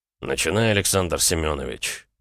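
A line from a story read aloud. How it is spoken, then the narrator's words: Cold. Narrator (Russian): ответил я холодно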